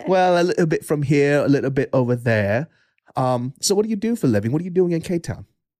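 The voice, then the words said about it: Put-on non-American accent. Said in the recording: “you can't tell from my accent ... What is that accent? ... Are you mocking my accent? ... Do I sound like an American?”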